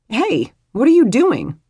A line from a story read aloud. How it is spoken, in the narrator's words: Bethany blurted